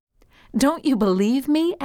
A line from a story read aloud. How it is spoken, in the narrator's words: asked Deborah